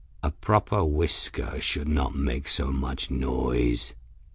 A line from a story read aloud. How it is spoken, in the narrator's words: Raoul growled